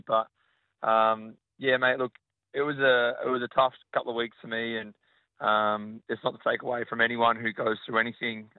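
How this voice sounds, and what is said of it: Partly lost, strained voice. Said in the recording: “I've kind of lost my voice a little bit after the game last night”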